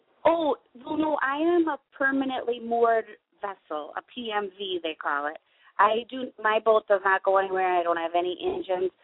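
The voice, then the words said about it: Minnesota accent. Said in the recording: “my Minnesota accent”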